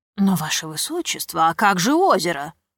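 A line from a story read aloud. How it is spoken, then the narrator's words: Exclaiming. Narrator (Russian): воскликнул лорд Камергер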